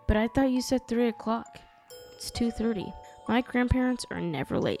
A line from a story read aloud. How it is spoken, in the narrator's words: said